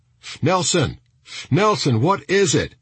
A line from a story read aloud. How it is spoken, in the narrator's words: he shouted across the street